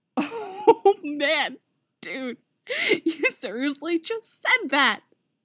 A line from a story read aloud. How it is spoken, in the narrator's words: Robin says, laughing with that hysterical edge again